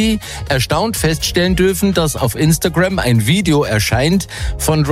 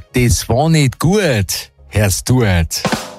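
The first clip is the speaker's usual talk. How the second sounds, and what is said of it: Put-on Bavarian accent. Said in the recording (German): “auf Bayerisch”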